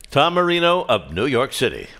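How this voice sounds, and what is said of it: Announcer voice. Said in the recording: “that's a great announcer voice. I love the way ... says that.”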